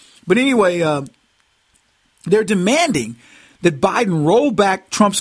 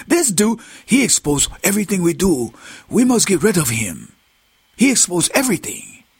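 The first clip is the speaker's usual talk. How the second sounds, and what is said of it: Put-on Chinese accent. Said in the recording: “I can do that, the Cantonese accent better than I can the Mandarin”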